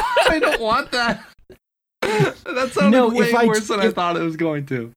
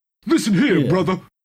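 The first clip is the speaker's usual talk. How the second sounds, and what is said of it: Deliberately bad imitation of another person. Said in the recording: “my signature other voice ... It's the Bad Hulk Hogan”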